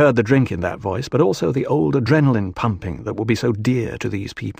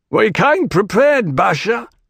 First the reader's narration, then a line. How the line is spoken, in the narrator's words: someone out in the room shouted